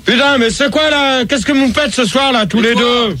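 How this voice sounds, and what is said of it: Shouting. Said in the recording (French): “tu cries... Tu cries pas, je suis déstabilisé”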